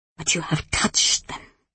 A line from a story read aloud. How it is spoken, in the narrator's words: the woman whispered